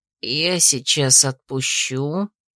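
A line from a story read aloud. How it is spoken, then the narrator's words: Quiet. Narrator (Russian): тихо сказал он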